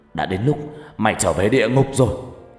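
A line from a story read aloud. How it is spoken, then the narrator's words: Angry loud shout. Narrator (Vietnamese): Phát giận dữ quát lớn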